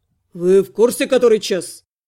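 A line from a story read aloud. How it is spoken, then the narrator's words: Displeased growl. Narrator (Russian): недовольно рыкнул магистр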